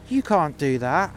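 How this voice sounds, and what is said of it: Camp voice. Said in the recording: “in his camp voice”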